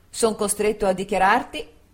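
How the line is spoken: Official tone. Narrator (Italian): egli disse in tono ufficiale

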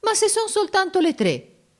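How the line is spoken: Offended exclamation. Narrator (Italian): esclamò Giorgio in tono d'offesa

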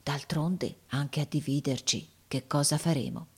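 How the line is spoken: Said quietly. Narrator (Italian): disse piano

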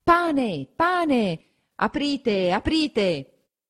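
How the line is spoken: Crowd shouting outside. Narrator (Italian): La gente comincia a affollarsi di fuori e a gridare

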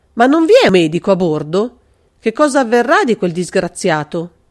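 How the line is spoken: Involuntary exclamation. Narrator (Italian): Involontariamente Carlo esclamò

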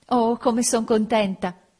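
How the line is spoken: Exclaiming in French. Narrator (Italian): esclamò in francese

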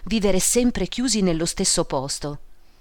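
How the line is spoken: Clerk's sigh. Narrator (Italian): sospirò l'impiegato

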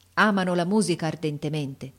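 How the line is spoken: Plain. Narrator (Italian): rispose il maestro

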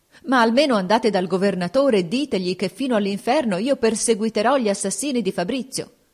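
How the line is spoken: Desperate, anxious shout. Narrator (Italian): La duchessa, con ansia disperata, gli gridò

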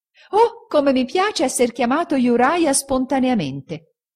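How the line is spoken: Delighted exclamation. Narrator (Italian): egli esclamò

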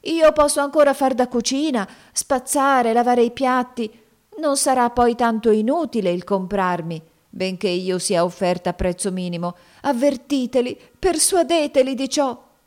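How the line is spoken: Pleading female voice. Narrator (Italian): soggiunse ella con voce supplichevole

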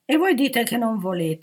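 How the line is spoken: Indignant chorus exclaiming. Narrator (Italian): esclamò il coro indignato

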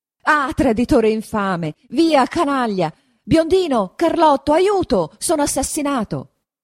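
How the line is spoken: Shouting. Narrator (Italian): grida Don Rodrigo

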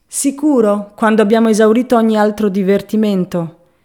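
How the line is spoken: Cheerful laughing reply. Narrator (Italian): Egli rise allegramente

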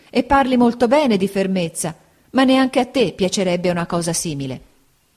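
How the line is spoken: Exclaimed. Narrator (Italian): esclamò mia madre

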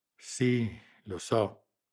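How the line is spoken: Grave agreement. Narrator (Italian): assentì in tono grave

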